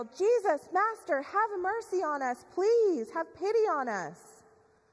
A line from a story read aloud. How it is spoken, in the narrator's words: They yell